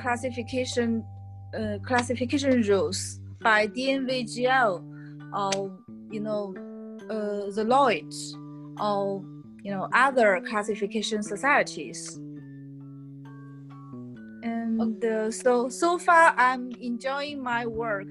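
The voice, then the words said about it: Non-native English accent. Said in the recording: “I've been not spoken English for a while, so forgive me for my accent”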